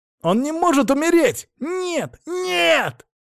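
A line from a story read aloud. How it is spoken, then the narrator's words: Yelled. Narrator (Russian): орал он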